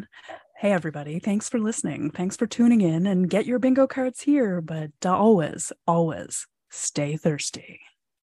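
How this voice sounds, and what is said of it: Soft whispery ASMR-style voice. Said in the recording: “doing your ASMR voice”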